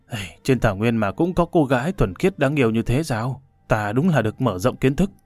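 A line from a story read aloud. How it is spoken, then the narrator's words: Muttering. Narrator (Vietnamese): Hồ Bất Quy lẩm bẩm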